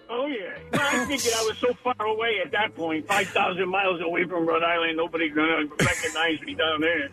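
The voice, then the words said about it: New York accent. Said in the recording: “a guy with a New York accent”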